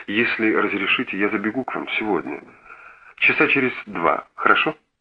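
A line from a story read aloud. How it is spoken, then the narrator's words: Touched, emotional voice. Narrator (Russian): растроганным голосом промолвил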